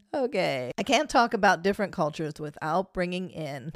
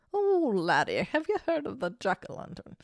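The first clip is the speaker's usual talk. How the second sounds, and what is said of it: Irish accent, pretty good. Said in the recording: “That was actually a pretty good accent.”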